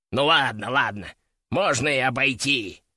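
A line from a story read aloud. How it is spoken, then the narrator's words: Grumbling. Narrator (Russian): проворчал он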